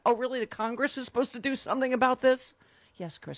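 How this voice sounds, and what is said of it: Yelling, loud angry rant. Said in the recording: “I'm yelling. ... I am both yelling and spitting on you.”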